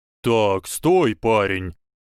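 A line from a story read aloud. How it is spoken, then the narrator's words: Booming. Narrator (Russian): Сказал мистер Хагрид гулким тоном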